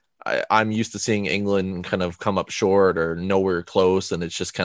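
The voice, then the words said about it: Non-English foreign accent. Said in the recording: “I'm not from England, of course, if it's not more obvious because of my accent”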